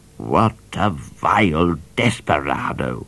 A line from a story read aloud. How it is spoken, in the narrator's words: snarled Judge Pepper, gnashing his false teeth